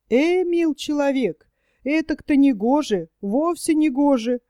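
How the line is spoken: Grumbling craftsman. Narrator (Russian): ворчал мастер

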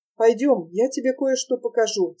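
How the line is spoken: Plain. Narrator (Russian): сказал он

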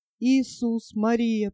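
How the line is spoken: Whispered. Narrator (Russian): прошептала она

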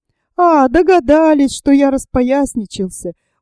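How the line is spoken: Very merry laughter. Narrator (Russian): Ужасно весело рассмеялся и Петр Степанович

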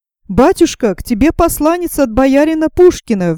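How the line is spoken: Alarmed shout. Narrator (Russian): крикнул встревоженный Андрей

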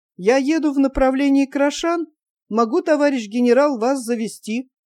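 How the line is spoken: Uncertain. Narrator (Russian): майор неуверенно сказал

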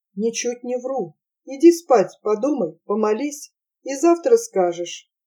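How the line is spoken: Calm. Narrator (Russian): спокойно сказала

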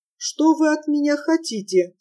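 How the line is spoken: Calm, thin old woman's voice. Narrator (Russian): спокойно спросила старушка своим тоненьким голоском

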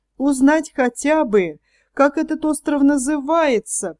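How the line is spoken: Moaning. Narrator (Russian): простонал Пиноккио

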